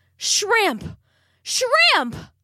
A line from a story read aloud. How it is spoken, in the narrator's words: Nettie hollered after him